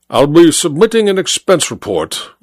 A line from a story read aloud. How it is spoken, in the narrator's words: I replied coldly